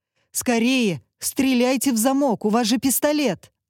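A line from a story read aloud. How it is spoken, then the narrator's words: Yelling. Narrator (Russian): орал Гришин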